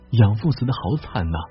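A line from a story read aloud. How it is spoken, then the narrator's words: Mournful lament. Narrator (Chinese): 石彪、银珠……当即哀叹一番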